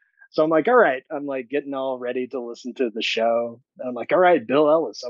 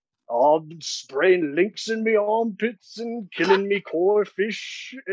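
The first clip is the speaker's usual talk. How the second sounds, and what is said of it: Imitates another person's accent. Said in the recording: “I wonder what he sounds like ... You've had quite the array of accents on the show”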